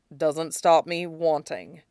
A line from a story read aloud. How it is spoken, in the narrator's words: Sui Zhou says gruffly